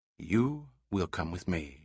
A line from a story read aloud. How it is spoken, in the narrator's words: said softly, without the slightest harsh quality